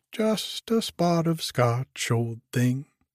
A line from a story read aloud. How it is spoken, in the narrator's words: he said brightly